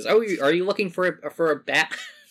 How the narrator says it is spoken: Still laugh

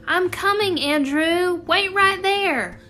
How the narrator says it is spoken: From the trestle, Theo shouted

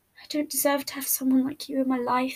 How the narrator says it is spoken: he murmured

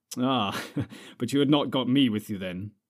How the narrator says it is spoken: laughed Strider

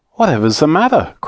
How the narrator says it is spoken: cried Joe

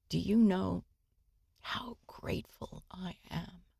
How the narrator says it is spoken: she whispered once again

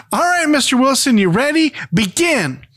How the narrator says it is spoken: Dennis shouts

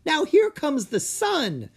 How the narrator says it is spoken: he cried

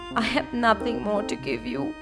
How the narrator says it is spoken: answered the girl sadly

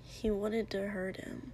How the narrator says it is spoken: Kiri mumbled

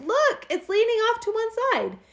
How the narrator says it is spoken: the children cried

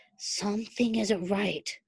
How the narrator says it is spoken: Styles murmured, whispering as if whatever it was that was coming could hear him

